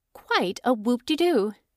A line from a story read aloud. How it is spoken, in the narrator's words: she said